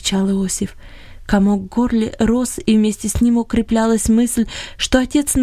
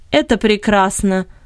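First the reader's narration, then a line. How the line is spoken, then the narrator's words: Cold reply. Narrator (Russian): холодно отозвался Бенет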